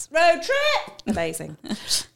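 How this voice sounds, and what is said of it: Excited yelling. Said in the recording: “I don't know why I'm yelling so much today ... I was that excited”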